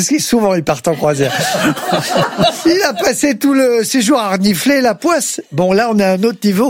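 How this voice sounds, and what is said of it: Usual voice. Nothing is said of it.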